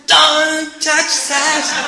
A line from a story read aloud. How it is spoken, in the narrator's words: the Mataji screamed